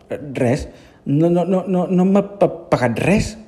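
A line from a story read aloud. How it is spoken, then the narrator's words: Stammering reply. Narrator (Catalan): va contestar Bernat, tartamudejant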